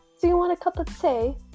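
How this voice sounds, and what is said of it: Put-on British accent. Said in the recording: “I'll say, do you want a cup of tea in British accent? ... Yours is pretty good.”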